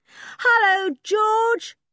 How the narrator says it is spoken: shouted Dick

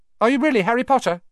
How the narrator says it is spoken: Ron blurted out

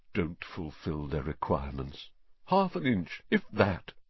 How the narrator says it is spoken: Nearly headless Nick, the ghost of Gryffindor Tower, muttering under his breath

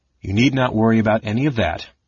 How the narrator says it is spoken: Justarius answered

